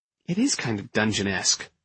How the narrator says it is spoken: I murmured to her

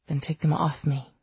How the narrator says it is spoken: Mark murmured, forgetful and dazed and lost in the hunt

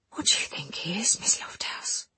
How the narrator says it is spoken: Harris whispered

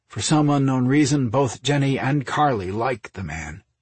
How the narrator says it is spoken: Orion said with a long sigh

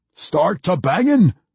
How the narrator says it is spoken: Puent roared

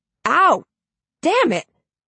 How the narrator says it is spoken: he yelps

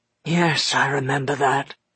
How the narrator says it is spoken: said Dustfinger hoarsely

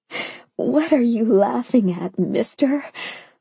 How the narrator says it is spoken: I giggled

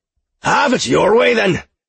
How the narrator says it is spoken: he shouted

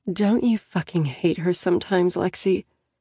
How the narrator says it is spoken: Annie sighs

